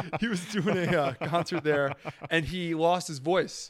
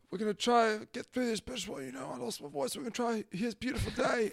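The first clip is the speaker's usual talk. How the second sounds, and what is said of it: Imitates a singer with lost voice. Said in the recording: “really good Bono without his voice impression ... That was very good.”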